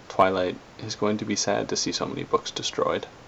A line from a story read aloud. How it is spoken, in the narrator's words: said softly